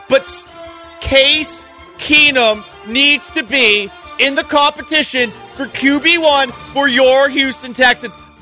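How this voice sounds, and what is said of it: Yelling, loud ranting delivery. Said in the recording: “I don't know why I'm yelling.”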